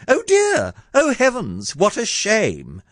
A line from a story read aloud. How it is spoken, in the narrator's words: A nice girl would at once exclaim